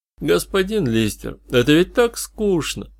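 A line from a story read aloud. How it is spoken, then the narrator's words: Glum drawl. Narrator (Russian): уныло протянул Тимс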